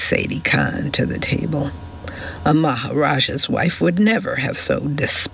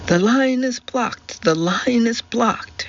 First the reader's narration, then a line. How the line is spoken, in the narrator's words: shrieked Daisy